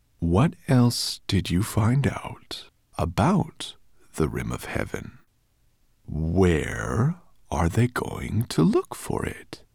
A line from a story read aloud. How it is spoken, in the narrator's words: said Nettlebrand in a dangerously soft voice